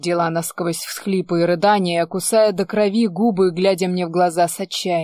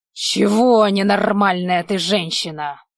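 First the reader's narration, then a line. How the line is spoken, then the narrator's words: Rough, emotional question. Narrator (Russian): спросил я грубо, потому что собственные эмоции от ее состояния творили что-то дикое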